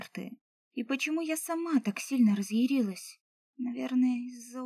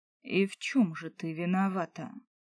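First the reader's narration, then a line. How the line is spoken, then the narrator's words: Bored question. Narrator (Russian): скучающим тоном спросил эльф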